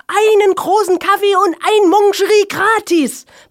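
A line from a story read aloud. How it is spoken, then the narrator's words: Exhausted last-strength shout. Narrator (German): ergänzte Helge und schrie mit letzter Kraft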